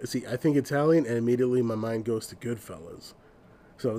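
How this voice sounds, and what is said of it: Usual voice. Nothing is said of it.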